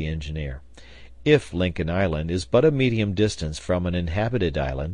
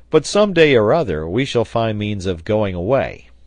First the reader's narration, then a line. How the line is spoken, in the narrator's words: replied Pencroft, laughing